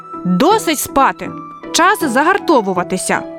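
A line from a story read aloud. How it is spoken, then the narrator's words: Shout again. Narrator (Ukrainian): знову закричав Яша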